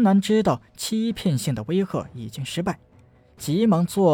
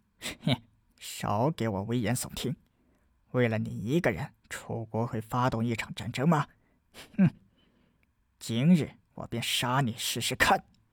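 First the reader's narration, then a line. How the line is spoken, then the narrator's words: Low, sneering. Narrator (Chinese): 陶然低声冷笑道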